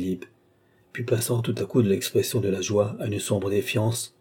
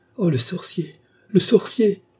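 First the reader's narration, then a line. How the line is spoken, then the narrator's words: Exclaimed. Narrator (French): s'écria le baron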